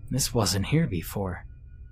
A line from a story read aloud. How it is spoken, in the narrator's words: he muttered to himself